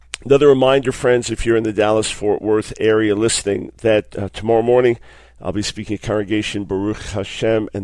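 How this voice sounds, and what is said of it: Weak, tired voice. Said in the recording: “My voice is a little bit weak”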